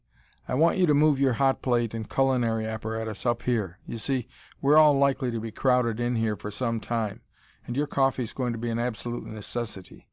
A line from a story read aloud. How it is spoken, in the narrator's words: he said cheerfully